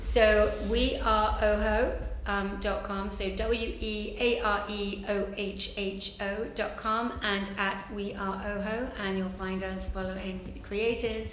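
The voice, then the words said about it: English accent. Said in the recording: “I love your accent... I just love the English accent... a beautiful accent”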